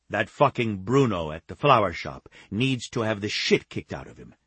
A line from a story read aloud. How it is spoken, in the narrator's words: Taviano snapped